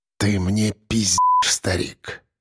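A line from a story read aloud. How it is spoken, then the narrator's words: Quiet, seething fury. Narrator (Russian): сказал кирпич тихо, и в этой короткой фразе было больше ярости, чем если бы он рычал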